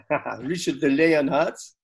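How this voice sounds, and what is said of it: Poor put-on French accent. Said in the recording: “do your French accent again ... That is rubbish.”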